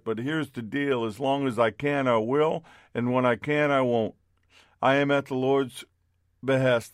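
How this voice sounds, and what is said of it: Worn, beat-up sounding voice. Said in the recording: “as you can hear in my voice, I'm a little beat up”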